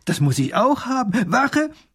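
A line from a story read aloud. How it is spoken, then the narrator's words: Delighted child calling. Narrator (German): ruft der kleine Großherzog erfreut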